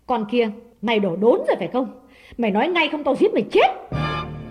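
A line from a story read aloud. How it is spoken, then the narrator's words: Harsh demand. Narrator (Vietnamese): Đào gay gắt hỏi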